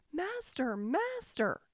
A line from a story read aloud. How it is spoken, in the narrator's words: the harp called out quite loud